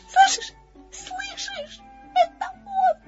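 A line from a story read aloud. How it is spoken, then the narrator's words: Frightened. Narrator (Russian): сказал Пятачок испуганно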